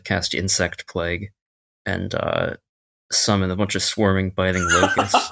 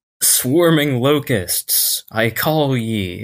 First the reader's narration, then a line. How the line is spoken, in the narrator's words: yell